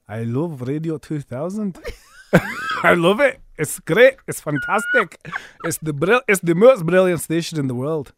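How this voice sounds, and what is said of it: Put-on Scottish accent. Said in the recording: “Okay, I'll give you a Scottish ... Let's do Scottish ... Scottish.”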